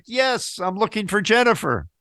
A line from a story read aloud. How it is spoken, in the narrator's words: In frustration, yelled back